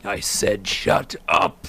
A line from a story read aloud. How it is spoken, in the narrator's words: roared the man